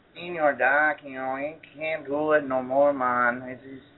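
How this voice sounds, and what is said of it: Put-on Mexican accent. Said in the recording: “my good Mexican accent... give me some of that accent, man.”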